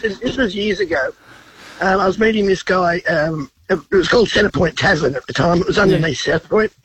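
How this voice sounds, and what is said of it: Congested, sick-sounding voice. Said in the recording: “sorry about the voice. I've got a cold.”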